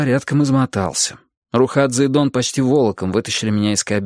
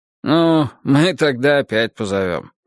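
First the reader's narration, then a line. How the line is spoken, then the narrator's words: Snorting. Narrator (Russian): хмыкнул Дон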